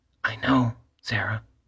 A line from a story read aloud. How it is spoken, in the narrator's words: she murmured